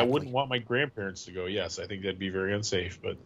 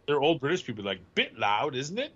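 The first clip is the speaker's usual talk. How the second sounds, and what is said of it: Put-on English accent, not great. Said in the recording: “English accent. That was pretty amazing. ... That's almost as bad as yours”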